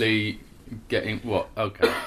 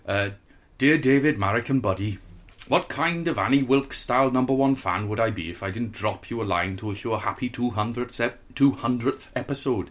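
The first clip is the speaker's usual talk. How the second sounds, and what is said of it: Slightly Welsh put-on accent. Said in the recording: “he's a little bit Welsh, a little bit Hampshire ... I'm just going to do it a little bit Welsh”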